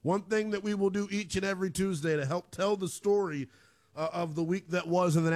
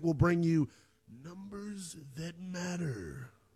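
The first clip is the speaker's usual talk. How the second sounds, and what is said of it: Big announcer-style voice. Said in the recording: “That was my big voice guy impersonation.”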